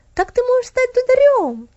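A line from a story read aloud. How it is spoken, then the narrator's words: Happy exclamation. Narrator (Russian): воскликнула Стефали, счастливая от своей идеи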